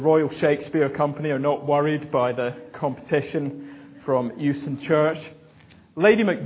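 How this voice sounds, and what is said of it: Usual voice. Nothing is said of it.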